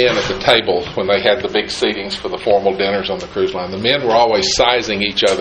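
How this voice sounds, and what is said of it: Usual voice. Nothing is said of it.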